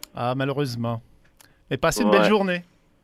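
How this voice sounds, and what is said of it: Put-on French accent, character voice. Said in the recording (French): “J'avais le goût de sortir mon personnage ... prendre ton accent ... Il fallait que tu sois français”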